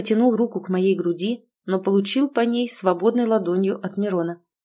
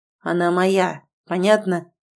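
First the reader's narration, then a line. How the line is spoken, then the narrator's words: Growl. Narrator (Russian): прорычал Мирон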